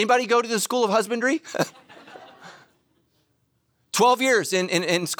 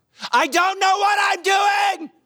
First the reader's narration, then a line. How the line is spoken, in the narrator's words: I just yelled out loud